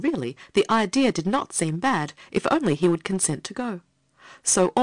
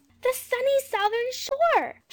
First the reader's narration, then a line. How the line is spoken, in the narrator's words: she cried